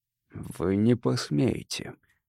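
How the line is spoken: Hoarse rasp. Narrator (Russian): прохрипел

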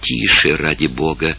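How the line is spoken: Whispered. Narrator (Russian): прошептала Марион

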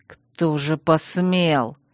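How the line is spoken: Menacing hiss. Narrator (Russian): угрожающе прошипел Чейз

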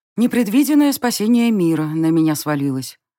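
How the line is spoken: Gloomy reply. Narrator (Russian): отозвалась я мрачно

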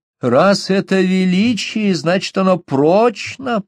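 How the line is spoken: Lisping baby-talk, fairly loud. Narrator (Russian): просюсюкала мадам Деруни достаточно громко, чтобы слышала Габриэль

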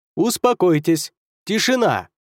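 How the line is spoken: Two voices shouting together. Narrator (Russian): в один голос крикнули Эрген и Танана

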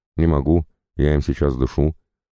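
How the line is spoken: Snapping retort. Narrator (Russian): огрызнулся тот в ответ

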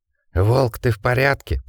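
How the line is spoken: Wheezing. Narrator (Russian): просипел Джек

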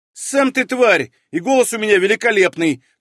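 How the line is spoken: Quick snap, inner voice. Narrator (Russian): тут же огрызнулся Чах у меня в голове

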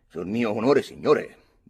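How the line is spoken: Grave tone. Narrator (Italian): dissi in tono grave

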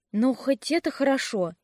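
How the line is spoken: Exhaling. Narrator (Russian): я выдохнула

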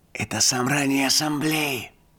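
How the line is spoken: Whispered in the ear. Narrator (Russian): прошептал мне на ухо Боди

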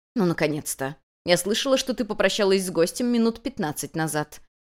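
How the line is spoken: Displeased voice. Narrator (Russian): недовольным голосом заметила хозяйка

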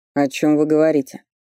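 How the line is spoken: Dry question. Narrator (Russian): сухо спросил он

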